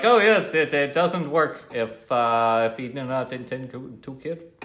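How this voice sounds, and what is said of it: Generic mixed foreign accent. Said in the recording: “I just try to do a generic foreign accent ... It's all of them. It's all mixed.”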